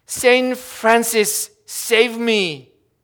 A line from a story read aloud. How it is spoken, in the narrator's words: In desperation, the poor fellow cried out